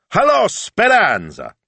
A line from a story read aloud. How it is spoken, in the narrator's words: he hollered